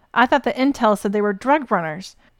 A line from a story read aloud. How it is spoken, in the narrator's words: he yelled from his position several feet away